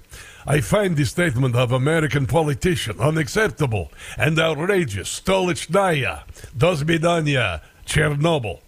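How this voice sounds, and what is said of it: Put-on Russian accent. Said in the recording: “I should do a Russian accent.”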